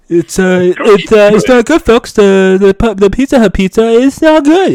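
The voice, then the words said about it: Imitates another person's voice. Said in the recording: “Is it Trump talking now? ... I'll try to make Trump voice”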